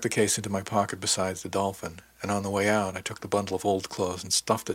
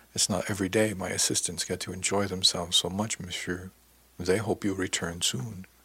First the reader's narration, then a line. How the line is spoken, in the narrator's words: added softly